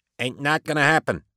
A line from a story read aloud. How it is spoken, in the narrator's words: said, his voice muffled by his clothing